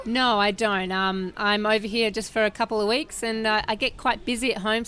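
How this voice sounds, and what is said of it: Australian accent. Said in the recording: “your accent is from? ... I'm from Perth, Australia.”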